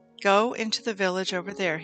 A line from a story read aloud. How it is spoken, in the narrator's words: he said